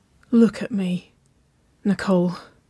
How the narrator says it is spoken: she rasped

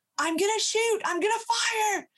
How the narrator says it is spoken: our wildlife monitor is yelling out

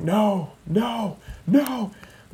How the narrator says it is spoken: Tom Landry on the sideline yelling

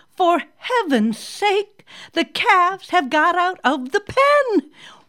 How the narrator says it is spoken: exclaimed

